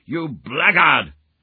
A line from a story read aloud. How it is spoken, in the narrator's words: shouted beside myself with rage